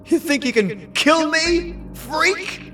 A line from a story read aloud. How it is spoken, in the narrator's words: He yelled with the confidence he didn't feel